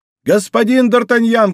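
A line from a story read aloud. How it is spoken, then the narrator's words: Shouting voice. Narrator (Russian): кричал голос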